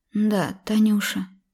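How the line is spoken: Mother's muffled reply. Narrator (Russian): глухо ответила мама

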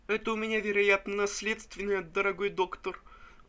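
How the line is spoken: Sobbing. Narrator (Russian): Заметил рыдающий Пузырев

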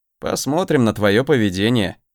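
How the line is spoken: Snort. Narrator (Russian): хмыкнул

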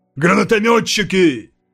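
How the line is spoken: Shouted. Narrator (Russian): крикнул я

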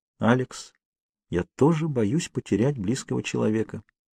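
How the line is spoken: Quiet. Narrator (Russian): тихо промолвила Кейт

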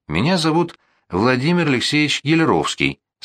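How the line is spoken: Calm. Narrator (Russian): сказал спокойно

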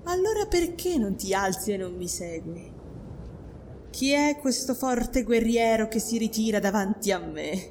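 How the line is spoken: Mocking singsong. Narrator (Italian): cantò lei in tono di scherno

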